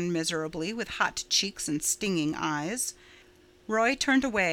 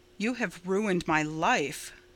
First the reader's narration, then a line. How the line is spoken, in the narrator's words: said Roy bitterly